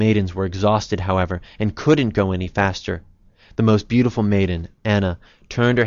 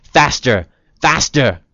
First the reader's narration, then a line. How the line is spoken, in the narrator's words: yelling